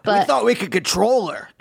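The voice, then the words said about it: Scottish accent. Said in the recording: “that's a good Scottish accent, right? ... That was really good.”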